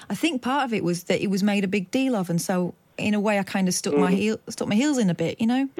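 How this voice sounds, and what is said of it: Noticeable northern English accent. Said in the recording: “I'm the other way around. I've lived down south since I was 10. ... my accent, which, by the way, is not as strong as it was, but still, ... noticeable ... you can hear your own voice twanging away different from everyone else's”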